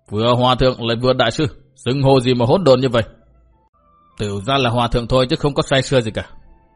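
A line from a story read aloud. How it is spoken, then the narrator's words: Angry scolding shout. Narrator (Vietnamese): Túy Hòa Thượng quát mắng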